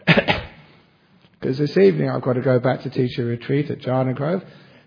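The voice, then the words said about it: Sore, strained throat. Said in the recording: “I have a sore throat”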